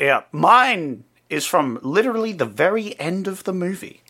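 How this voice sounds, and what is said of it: Usual voice. Nothing is said of it.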